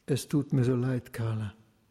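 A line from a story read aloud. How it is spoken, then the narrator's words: Quiet. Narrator (German): sagte leise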